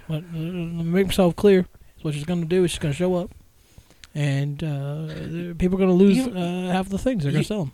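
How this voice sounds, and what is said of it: Barack Obama impression. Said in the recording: “That is a great Obama impression.”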